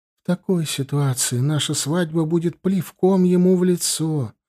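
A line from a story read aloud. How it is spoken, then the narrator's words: Sad. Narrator (Russian): грустно ответила Джоан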